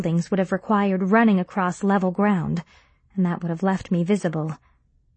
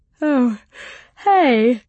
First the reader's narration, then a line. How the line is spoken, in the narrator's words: Sarah yawned, barely making an effort to hide it